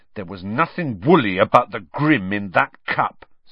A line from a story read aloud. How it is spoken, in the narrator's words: said Ron hotly